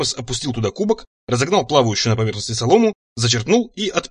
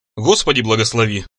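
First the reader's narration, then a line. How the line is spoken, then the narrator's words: Muttered. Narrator (Russian): пробормотал он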